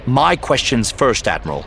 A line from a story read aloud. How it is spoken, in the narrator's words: Kaidus said sharply